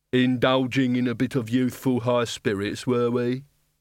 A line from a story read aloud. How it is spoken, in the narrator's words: he said